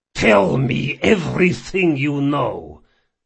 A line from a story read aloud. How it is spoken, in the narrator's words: he growled